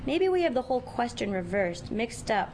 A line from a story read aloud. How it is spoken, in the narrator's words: Rutherford sighs